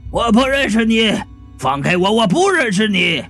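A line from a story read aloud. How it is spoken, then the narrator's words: Howling. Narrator (Chinese): 中年男人嚎叫道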